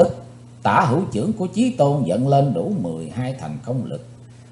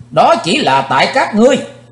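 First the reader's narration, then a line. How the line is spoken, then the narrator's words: Sudden shout. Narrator (Vietnamese): Thình lình Chí Tôn hét lên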